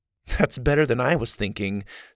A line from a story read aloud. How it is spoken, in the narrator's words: Susie giggled